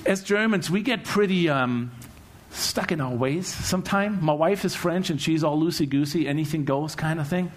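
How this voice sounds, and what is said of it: Slight German accent. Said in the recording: “I'm German, as you might hear my slight accent”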